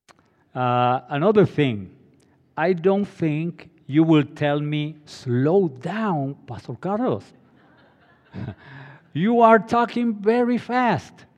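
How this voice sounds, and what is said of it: Hispanic accent. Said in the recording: “my Hispanic accent”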